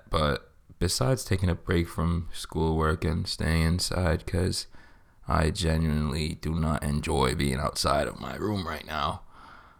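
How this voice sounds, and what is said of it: Sick-sounding voice. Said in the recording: “I got sick. I'm still sick now. You can probably hear it in my voice.”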